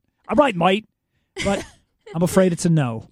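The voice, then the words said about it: Poor British accent sounding Australian. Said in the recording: “Is that your British accent? ... I have a terrible Simon. I can't do his I can't do his accent. I sound like I'm Australian.”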